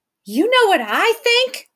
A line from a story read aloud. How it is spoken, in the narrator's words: She shouted